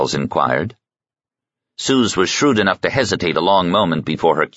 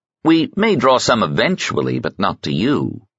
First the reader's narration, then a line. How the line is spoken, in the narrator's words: Miles said smoothly